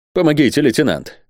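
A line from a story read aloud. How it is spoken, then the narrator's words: Exclamation. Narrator (Russian): воскликнул Сервадак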